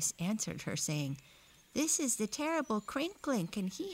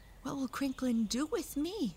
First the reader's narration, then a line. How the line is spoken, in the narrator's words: She asked anxiously